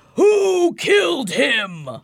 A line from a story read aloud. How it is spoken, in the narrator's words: He roars